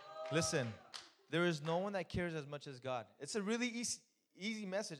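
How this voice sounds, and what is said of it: Strong accent. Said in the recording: “my accent's coming out real bad today”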